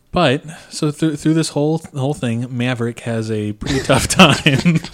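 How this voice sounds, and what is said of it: Poor impression of another person's voice. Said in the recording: “Why are you saying that like that? ... It's my best Sarah Palin impression. It's not great. ... That was so bad. ... It was really bad.”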